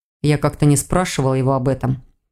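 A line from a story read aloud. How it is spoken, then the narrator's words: Dry reply. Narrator (Russian): сухо ответил Рейн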